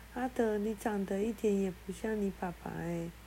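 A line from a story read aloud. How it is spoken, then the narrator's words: Forced nervous whisper. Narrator (Chinese): 小丽挤出笑容 发抖的 小声地说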